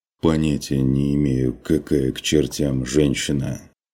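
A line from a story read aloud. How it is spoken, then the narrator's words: Muffled reply. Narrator (Russian): Глухо отозвался страж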